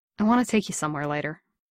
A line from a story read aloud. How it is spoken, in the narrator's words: Steve said